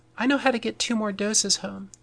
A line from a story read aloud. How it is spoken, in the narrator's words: says Amy